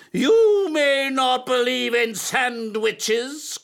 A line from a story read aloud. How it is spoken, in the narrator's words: cried his teacher